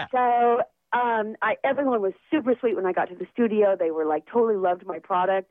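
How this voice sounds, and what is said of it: Hyper, animated speaking voice. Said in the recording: “as you probably can tell by my voice, a little bit hyper ... I tend to be really animated”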